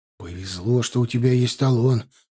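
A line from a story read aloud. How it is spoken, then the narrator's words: Whisper. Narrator (Russian): шепотом сказал ей в лифте Елизаров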